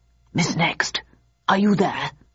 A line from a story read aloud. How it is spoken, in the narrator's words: hissed